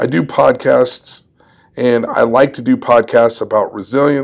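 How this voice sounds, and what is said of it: Usual voice. Nothing is said of it.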